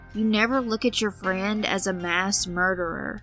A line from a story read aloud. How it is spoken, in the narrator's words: He sighed sadly in disbelief before saying